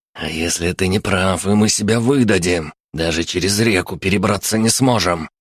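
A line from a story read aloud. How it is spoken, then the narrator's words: Hiss. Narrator (Russian): прошипел первый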